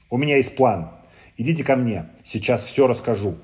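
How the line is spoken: Exclaimed. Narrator (Russian): воскликнула Злата

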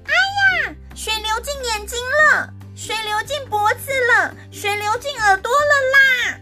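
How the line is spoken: Little girl yelling. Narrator (Chinese): 小女孩又开始大叫

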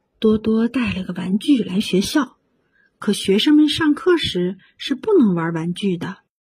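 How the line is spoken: Low voice. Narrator (Chinese): 塔玛小姐低声说

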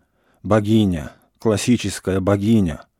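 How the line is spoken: Wheezing bass exclamation. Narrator (Russian): восклицал хрипящим басом

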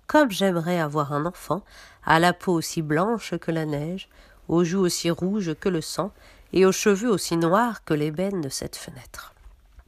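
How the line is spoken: Wistful sigh. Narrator (French): soupira-t-elle

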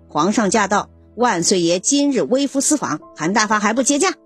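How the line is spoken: Soft voice. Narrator (Chinese): 和珅，这才轻声说

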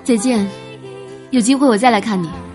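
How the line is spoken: Smiling. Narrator (Chinese): 我笑着说道

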